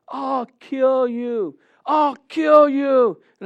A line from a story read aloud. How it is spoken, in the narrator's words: I hear somebody yelling around the corner, yelling